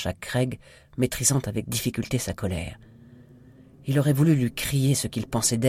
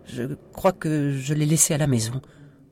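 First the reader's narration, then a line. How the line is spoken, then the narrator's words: Tiny stammering voice. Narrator (French): bredouilla Sophie avec une toute petite voix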